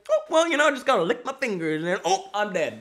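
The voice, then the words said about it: Imitates a careless shopper's voice. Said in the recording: “That's my impression of that guy.”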